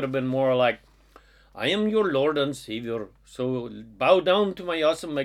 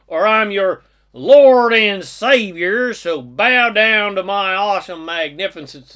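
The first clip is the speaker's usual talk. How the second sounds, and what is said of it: Put-on Southern accent. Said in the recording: “he would have spoken with a southern accent.”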